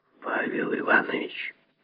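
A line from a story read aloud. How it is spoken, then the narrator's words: Angry whisper. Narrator (Russian): сказал шепотом и злобно Лазовский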